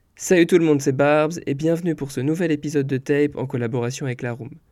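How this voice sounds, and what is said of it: Hoarse, cracked voice from flu. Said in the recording (French): “si vous ne reconnaissez pas ma voix, c'est normal ... je suis grippé, j'ai la voix cassée”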